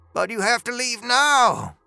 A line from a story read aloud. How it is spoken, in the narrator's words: Dooley cried